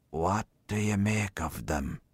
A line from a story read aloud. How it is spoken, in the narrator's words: He whispered confidentially